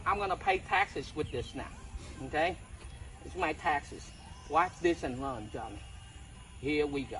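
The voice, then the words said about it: Chinese accent. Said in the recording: “a Chinese or an Asian person talk shit like this ... I love the Chinese accent”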